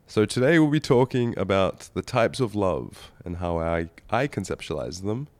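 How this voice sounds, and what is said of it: Slightly raspy, congested voice. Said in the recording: “my slightly raspy and congested voice”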